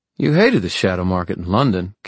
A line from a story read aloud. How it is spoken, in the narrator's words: Kit said